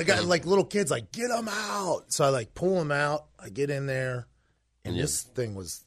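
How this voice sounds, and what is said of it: Usual voice. Nothing is said of it.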